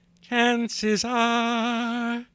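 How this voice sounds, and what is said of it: Imitates another person's singing voice. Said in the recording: “my Johnny Mathis impression ... One line from one of his songs.”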